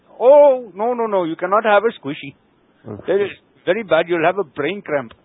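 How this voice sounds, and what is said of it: Put-on foreign accent. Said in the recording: “I don't know why I'm talking like this ... doing an accent”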